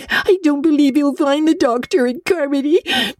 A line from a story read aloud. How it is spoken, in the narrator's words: sobbed Diana